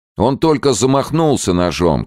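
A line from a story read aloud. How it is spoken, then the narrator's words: Group shouting. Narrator (Russian): кричали гелики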